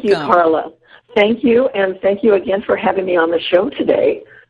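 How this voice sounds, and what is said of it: Slightly hoarse voice. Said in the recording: “I'm a tad bit hoarse... my little temporary throat issue”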